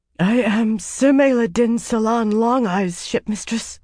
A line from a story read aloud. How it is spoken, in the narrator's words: said hoarsely